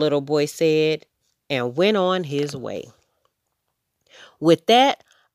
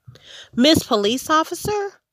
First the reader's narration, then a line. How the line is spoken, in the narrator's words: Amu exclaimed